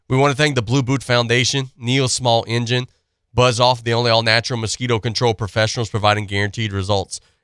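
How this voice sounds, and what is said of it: Raspy, hoarse voice. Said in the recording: “Still a little bit raspy, still a little bit hoarse,”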